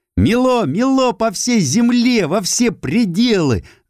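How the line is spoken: Sudden ringing girl's shout. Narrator (Russian): звонко выкрикнула вдруг девочка

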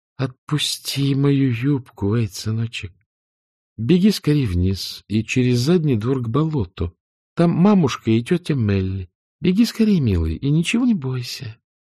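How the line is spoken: Insistent yet gentle. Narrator (Russian): она проговорила настойчиво, но необычно для нее мягко и нежно

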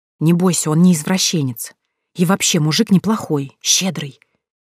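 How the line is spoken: Whispering. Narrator (Russian): тут же начала шептать Марина

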